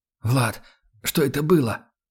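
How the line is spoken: Strained, choked wheeze. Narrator (Russian): Сдавленно прохрипел я

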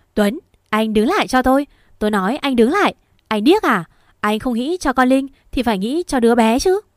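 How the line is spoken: Shouting. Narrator (Vietnamese): Quỳnh hét lên

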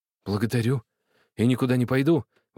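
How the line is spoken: Exclamation. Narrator (Russian): воскликнул Храпошка

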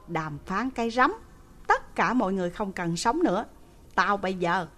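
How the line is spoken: Angry. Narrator (Vietnamese): tức giận

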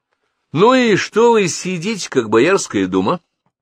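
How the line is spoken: Brisk, cheerful question. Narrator (Russian): бодрым голосом спросил он

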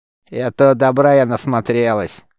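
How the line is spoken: Smirking grunt. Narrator (Russian): хмыкнула

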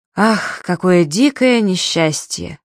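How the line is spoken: Satisfied sigh. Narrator (Russian): удовлетворенно вздохнул Безукладников

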